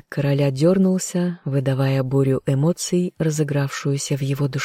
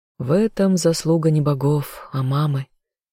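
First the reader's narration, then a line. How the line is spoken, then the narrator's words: Sighing. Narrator (Russian): вздохнула Азазель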